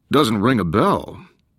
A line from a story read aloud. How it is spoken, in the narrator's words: His voice was resonant and friendly